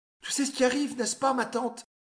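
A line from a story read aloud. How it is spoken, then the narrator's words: Shrill voice. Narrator (French): dit Madeleine d'une voix stridente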